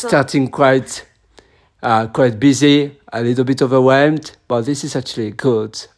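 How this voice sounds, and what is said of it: Hoarse, broken voice. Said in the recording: “my voice is now broken”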